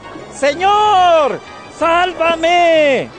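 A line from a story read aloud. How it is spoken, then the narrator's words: Frightened shout. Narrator (Spanish): se asustó y, como empezaba a hundirse, gritó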